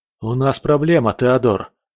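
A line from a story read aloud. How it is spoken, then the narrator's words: Agitated voice. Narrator (Russian): сказал взволнованным голосом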